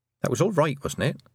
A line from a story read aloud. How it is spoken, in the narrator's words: said Tiffany